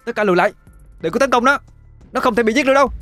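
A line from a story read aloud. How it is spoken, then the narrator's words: Urgent shout. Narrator (Vietnamese): Cô vội hét lên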